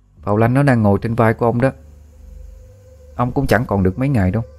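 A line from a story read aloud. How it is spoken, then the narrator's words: Cold. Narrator (Vietnamese): A Phong lạnh lùng bảo với ông ta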